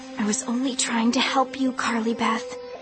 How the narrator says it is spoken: Sabrina said in a frightened whisper

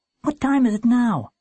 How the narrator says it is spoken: Warren asked, shifting nervously

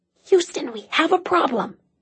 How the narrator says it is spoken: she said in an urgent whisper

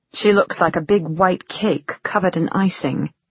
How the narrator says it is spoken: Fortunata muttered

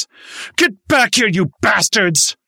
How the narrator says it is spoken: Anger and frustration overcame him, and he screamed

